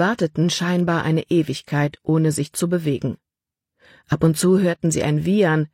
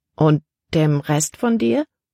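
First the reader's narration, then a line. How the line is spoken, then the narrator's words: Plain question. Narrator (German): fragte Libby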